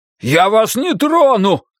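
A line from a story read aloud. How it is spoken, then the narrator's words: Shouted. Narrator (Russian): крикнул он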